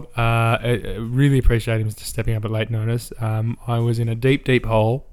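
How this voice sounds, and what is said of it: Hoarse, croaky deep voice. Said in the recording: “this pesky laryngitis ... it adds a certain edge, a rustic edge to my voice ... rusty and croaky ... croaky boys with their deep voices”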